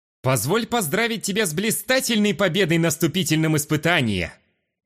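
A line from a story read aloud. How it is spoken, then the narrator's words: Exaggerated loud theatrical announcement. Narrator (Russian): Снова преувеличенно громко объявил он, будто в самом деле работал на публику со сцены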